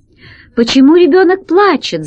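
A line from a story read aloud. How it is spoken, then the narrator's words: Shouted. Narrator (Russian): закричала она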